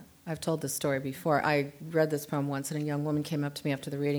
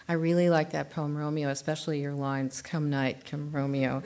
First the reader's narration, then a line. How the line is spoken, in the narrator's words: I said